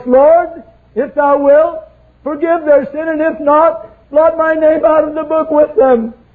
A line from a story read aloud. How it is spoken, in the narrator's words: Moses cries